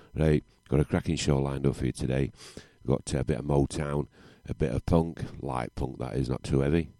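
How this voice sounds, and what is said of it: Yorkshire English accent. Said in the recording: “That's Yorkshire accent for you, see.”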